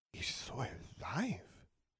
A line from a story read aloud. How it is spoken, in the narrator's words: she whispered